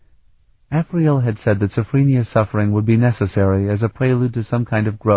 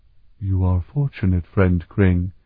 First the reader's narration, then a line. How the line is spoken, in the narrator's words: Engessa replied in his deep, soft voice